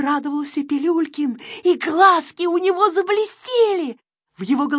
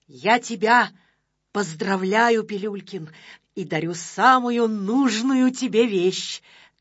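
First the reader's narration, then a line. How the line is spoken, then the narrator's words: Solemn. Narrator (Russian): торжественно произнес Незнайка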